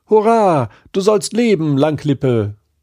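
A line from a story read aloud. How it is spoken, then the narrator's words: Calling out. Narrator (German): rief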